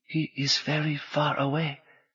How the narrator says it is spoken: the little man whispered

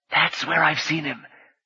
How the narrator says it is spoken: Rini whispered to Khabu

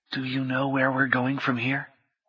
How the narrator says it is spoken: Orlando asked in a whisper

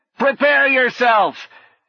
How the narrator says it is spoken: he shouted

